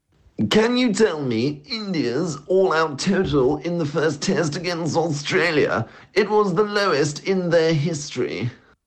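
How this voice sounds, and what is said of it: Impression of Blowers. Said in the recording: “Oh, sorry, I mean Blowers, as his impression is.”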